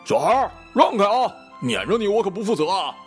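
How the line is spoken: Driver yelling. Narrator (Chinese): 开车师傅对着正前方吼

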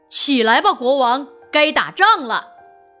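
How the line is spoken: Shouting. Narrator (Chinese): 骑士喊道

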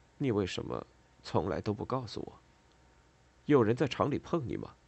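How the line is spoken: Gloomy low mutter. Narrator (Chinese): 恩佐怀里抱着睡着的孩子，脸色阴沉地嘟囔了一句

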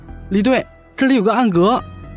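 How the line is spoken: Calling out. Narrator (Chinese): 一名刑警叫住了李安

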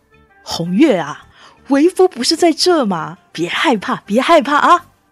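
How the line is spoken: Smiling, soothing. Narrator (Chinese): 段流生微微一笑，他说

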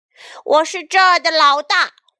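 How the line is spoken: Terrifying roar. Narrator (Chinese): 泰伦恐怖的吼叫声再次响起

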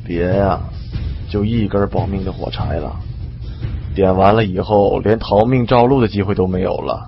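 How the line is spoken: Confused muttering. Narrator (Chinese): 李存壮没明白我的意思，嘀咕说

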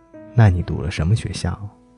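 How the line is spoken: Plain. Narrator (Chinese): 他说

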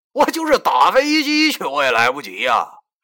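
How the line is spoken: Angry. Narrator (Chinese): 我当时就怒了，我对他说

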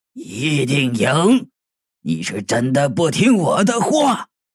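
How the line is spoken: Harsh, stern. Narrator (Chinese): 赌徒厉声道

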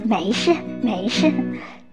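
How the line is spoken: Cheerful despite injury. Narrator (Chinese): 父亲做工时受了伤，依然笑嘻嘻地说

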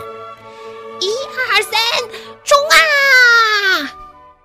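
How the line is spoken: Children shouting in unison. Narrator (Chinese): 小六子、小胖墩儿、鼻涕虫、小刺头、娇气包，憋足了劲儿，齐声喊

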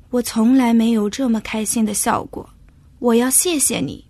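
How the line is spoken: Sighing. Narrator (Chinese): 国王叹了口气

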